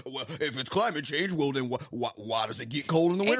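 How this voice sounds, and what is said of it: Country Missouri accent. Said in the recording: “you're like fake country accent. That was really good. ... Oh, that's your Missouri.”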